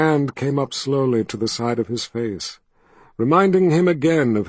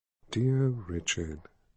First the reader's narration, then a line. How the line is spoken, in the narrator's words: she said softly